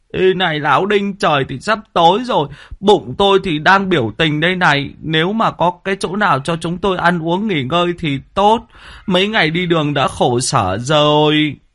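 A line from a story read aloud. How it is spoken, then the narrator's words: Hungry whimpering. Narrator (Vietnamese): Thằng Tí, bây giờ dạ dày đã dính vào da bụng, mếu máo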